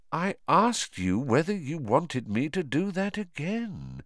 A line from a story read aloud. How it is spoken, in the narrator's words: said Voldemort softly